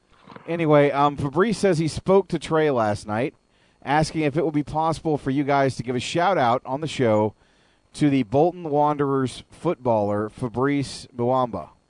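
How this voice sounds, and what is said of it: Hoarse voice. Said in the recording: “my voice is starting to act up. It's getting a little hoarse”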